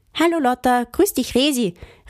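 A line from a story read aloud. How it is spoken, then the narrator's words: Calling from afar. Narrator (German): rief von Weitem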